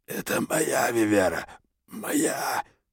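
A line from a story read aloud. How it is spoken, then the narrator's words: Hoarse whisper. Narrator (Russian): прошептал хрипло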